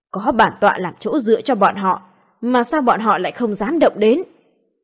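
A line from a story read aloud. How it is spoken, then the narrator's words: Angry. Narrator (Vietnamese): Vị tiên sứ này giận dữ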